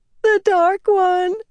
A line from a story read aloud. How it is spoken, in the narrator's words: Nicola wailed